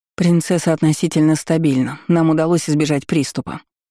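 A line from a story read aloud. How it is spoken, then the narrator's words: Dry, businesslike. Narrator (Russian): Аэролин ответила также сухо и по делу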